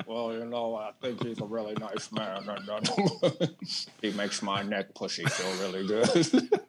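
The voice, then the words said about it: Mitch McConnell impression. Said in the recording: “Did you just do an impression? ... you just did it perfectly”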